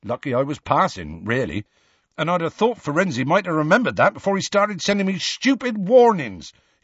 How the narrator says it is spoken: he added hotly and unexpectedly

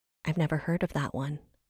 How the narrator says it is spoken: Seraphina whispered

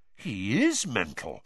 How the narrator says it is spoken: Fred said, in an almost awed voice

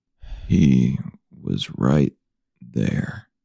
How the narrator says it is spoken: the man mumbled

